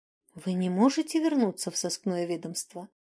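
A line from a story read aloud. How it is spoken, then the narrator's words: Timid question. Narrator (Russian): робко спросила Тилья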